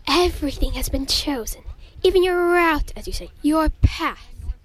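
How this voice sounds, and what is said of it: Put-on accent. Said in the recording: “that accent thing”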